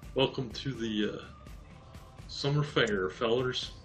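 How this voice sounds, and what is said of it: Put-on Southern accent. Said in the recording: “a southern accent”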